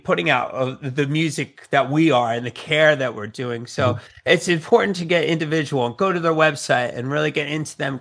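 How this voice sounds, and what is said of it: Philadelphia East Coast accent. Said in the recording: “what is that accent? ... This accent is Philadelphia, kind of New York, Philly, East Coast. ... But I lived out in LA for a very long time. So I have the melting pot.”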